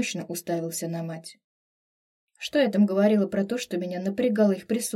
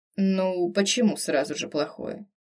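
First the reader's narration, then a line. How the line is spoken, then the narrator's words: Father's amused snort. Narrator (Russian): хмыкнул папа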